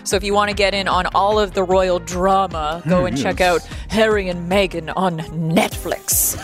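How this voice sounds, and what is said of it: Put-on British accent. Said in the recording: “That's my British accent. I'm trying to do better than my Mrs. Doubtfire”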